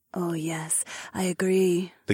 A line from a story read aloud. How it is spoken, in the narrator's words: the catwoman purred again